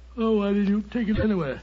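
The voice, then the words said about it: Sleepy, drowsy voice. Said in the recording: “You sound sleepy ... I am confoundedly sleepy.”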